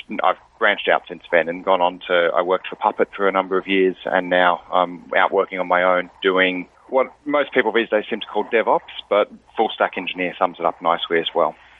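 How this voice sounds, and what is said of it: Australian accent. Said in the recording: “I've got a bit of an accent. I'm based in Sydney, Australia.”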